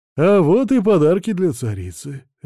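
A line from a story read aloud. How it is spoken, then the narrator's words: Cheerful. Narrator (Russian): весело произнес Василий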